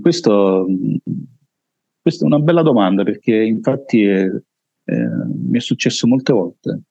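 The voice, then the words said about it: Deep heavy voice, Neapolitan accent. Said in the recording (Italian): “la tua voce sai... bella pesante bella, nel senso bella doppia... Come accento napoletano.”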